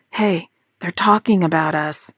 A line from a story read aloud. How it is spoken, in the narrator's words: she whispered to Bob